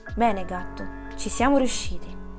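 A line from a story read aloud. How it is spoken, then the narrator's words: Sighing. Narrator (Italian): disse sospirando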